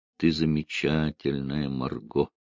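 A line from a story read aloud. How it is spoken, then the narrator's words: Quiet. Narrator (Russian): тихо произнес он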